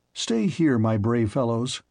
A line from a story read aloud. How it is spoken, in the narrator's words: said I